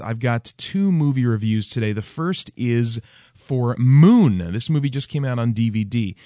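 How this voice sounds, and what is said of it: Haggard, hoarse voice with a cold. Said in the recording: “my voice is a little bit extra haggard in addition to my cold”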